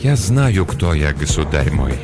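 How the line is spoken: Soft. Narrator (Russian): мягко произнес Ланселот

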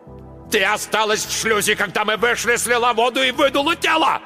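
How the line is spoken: Yelling. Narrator (Russian): орал Марк Йоган

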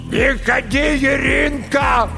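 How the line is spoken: Shout through a mirror. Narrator (Russian): крикнула сквозь зеркало смутная фигура из-за спины

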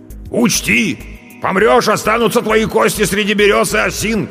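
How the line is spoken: Shouting after someone. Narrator (Russian): кричал он мне уже в спину

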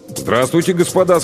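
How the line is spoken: Plain. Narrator (Russian): сказал коллега Малинин

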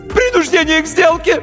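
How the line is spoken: High shriek, voice cracking. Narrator (Russian): Неожиданно высоким юношеским голосом завопил нотариус и дал петуха

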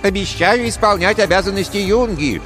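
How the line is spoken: Mocking thin voice. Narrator (Russian): тонким голоском передразнил он

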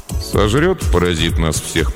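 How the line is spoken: Gloomy grumble. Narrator (Russian): проворчал он хмуро

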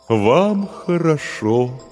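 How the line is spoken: Mournful drawn-out voice. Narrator (Russian): заунывным голосом произнес терем

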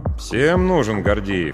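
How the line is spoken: Grumbling. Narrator (Russian): проворчал я

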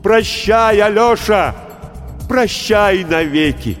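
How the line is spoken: Minister shouting. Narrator (Russian): голос министра Чернушки, который кричал

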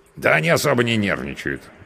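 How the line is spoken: Snorting. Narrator (Russian): хмыкнул мой спутник

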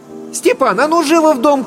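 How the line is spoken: Shouting from afar. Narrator (Russian): крикнула Татьяна из сеней

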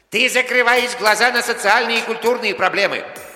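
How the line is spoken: Shout. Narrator (Russian): крикнул ему Гарри

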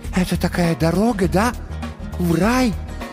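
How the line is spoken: Reverent whispered question. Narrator (Russian): Почтительным шепотом выдохнул он вопрос

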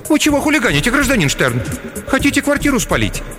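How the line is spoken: Frightened question. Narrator (Russian): Клавдия Васильевна испуганно спросила

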